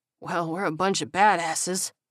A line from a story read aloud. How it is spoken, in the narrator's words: Owens wheezed